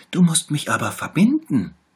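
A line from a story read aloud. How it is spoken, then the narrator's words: Little tiger calling out. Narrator (German): rief der kleine Tiger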